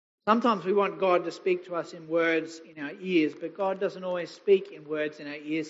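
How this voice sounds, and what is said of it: Hoarse, strained voice. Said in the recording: “you can tell I haven't preached in a while. I've lost my voice already.”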